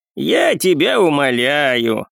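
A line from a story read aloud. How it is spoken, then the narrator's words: Laughing old man. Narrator (Russian): рассмеялся дед Павел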